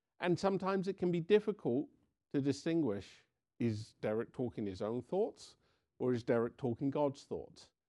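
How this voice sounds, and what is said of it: English accent. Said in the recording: “I have an English accent.”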